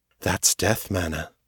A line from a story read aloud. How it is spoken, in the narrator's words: Morgan said quietly